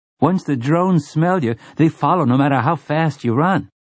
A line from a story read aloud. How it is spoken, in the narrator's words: Sleitman's boy said eagerly